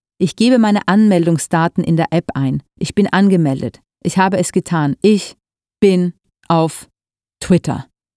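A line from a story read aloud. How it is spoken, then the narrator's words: Called out. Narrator (German): rief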